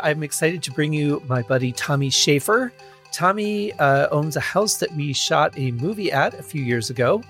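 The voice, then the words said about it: Scratchy, unwarmed voice. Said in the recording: “sounding a little scratchy for some reason ... my voice isn't warm”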